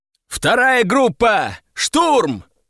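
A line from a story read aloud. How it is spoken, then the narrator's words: Full-voiced yell. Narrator (Russian): заорал я уже во весь голос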